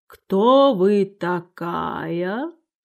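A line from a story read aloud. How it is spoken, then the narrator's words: Languid sleepy voice. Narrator (Russian): гусеница вынула мундштук изо рта и спросила вялым, сонным голосом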